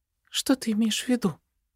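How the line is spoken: Unsure question. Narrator (Russian): Неуверенно спрашивает Зельда

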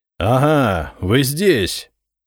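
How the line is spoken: Menacing roar. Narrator (Russian): грозно взревел он

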